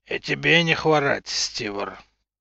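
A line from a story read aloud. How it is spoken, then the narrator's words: Reluctant angry growl, clenched teeth. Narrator (Russian): Нехотя сквозь зубы прорычал Юр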